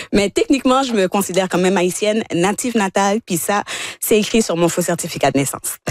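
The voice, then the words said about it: Non-local accent. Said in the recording (French): “ça se voit, d'accord avec ma couleur de peau et mon accent. Un petit peu, des fois, ceux qui sont à la radio, que je suis pas d'ici”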